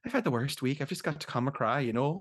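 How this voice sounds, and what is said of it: Put-on Irish accent. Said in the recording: “that is so funny here in an Irish accent”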